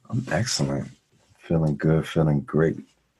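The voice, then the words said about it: Put-on sexy, seductive voice. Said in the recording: “You got your sexy voice on. ... put on my get them ready voice ... voice gets sexier by the minute.”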